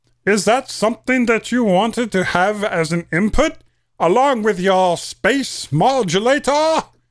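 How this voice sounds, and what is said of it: Marvin the Martian cartoon voice. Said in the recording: “channel my inner Marvin the Martian... not a bad imitation... I thought it was quite good actually”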